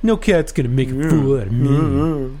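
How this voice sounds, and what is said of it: Cartoon character voice. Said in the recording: “do your Buckle voice”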